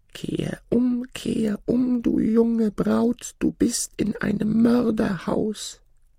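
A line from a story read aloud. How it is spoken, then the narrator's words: Sudden voice calling out. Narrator (German): Plötzlich rief eine Stimme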